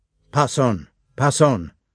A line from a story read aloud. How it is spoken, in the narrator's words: the captain reiterated, frowning sternly